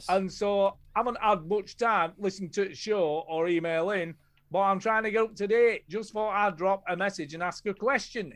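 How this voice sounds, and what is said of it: Exaggerated put-on regional accent. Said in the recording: “That's really a stretch on the accent there... that was pretty good, actually... it's like near from where he's from”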